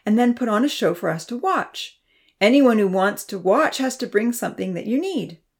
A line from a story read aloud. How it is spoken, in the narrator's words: she explained brightly